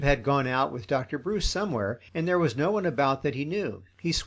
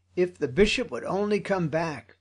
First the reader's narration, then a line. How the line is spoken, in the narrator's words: cried